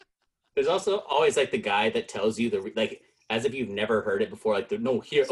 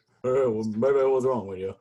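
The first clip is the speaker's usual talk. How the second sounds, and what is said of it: Imitates another person's voice. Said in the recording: “my impression of Elvis cheering up his crying girlfriend ... That's pretty good”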